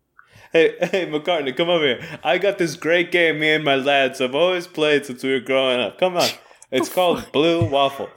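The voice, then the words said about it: Put-on New York accent. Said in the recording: “Doing like a New York accent.”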